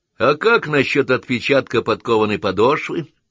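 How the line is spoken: Snide question. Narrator (Russian): ехидно осведомился Саймон

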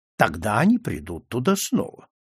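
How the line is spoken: Calm. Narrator (Russian): спокойно ответил Ицко

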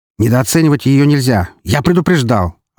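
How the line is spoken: Snapping retort. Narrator (Russian): огрызнулся Серебряков

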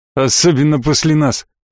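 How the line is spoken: Snorting. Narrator (Russian): хмыкнул Гудрон

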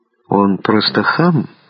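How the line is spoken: Quiet. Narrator (Russian): тихо сказал Майор, сидевшим рядом с ним Дронго

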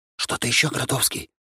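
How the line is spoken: Whispered question. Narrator (Russian): шепотом спросил я, но можно было говорить и чуть громче

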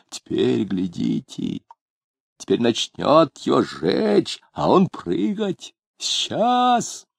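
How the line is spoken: Very quiet speech. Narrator (Russian): он сказал тоже очень тихо

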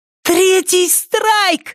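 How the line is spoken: Exclaimed. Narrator (Russian): воскликнула Триша

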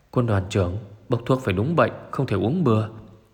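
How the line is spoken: Soft murmur. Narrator (Vietnamese): Một tên sĩ quan cao cấp bên cạnh vừa nói khẽ

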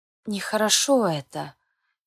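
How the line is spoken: Quiet sigh. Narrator (Russian): тихо вздохнула мама

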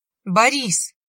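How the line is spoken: Indignant, hurt shout. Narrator (Russian): со смесью возмущения и обиды выкрикнула ему вслед Марина

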